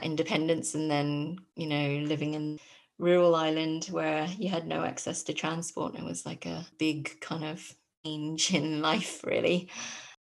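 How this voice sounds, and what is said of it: English accent. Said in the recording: “with an English accent”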